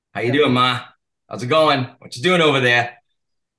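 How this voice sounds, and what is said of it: Put-on New England accent. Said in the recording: “I that accent is there. My mom passed, but she's originally from Rhode Island. If I were around here, that accent, boom.”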